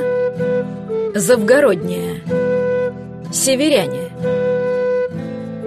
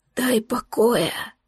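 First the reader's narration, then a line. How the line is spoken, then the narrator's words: Barely audible whisper. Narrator (Russian): прошептал он еле слышно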